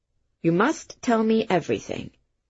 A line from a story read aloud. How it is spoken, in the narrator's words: the inspector said